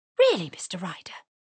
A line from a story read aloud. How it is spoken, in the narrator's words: exclaimed Mrs